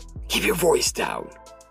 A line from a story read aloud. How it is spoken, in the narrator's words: Jefferson hissed